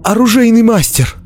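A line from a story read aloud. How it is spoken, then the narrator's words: Exclamation. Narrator (Russian): воскликнул Дзирт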